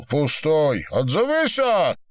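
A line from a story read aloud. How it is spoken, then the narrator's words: Roaring. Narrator (Russian): проревел Горбовец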